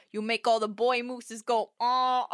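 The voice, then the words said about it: Imitates another person's voice. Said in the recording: “I'm sorry to do that impression in front of you.”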